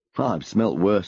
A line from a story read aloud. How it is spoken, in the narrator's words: replied with a chuckle